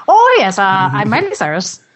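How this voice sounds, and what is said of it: Bad put-on Irish accent. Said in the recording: “my really bad Irish accent ... the worst Irish accent ever”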